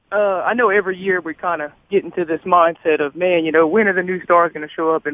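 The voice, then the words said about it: Hoarse, strained voice. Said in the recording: “I'm a little hoarse, man. We kind of screamed our lungs out this weekend”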